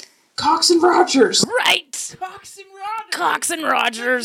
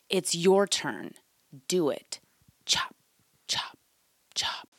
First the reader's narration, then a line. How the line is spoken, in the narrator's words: he hears someone whisper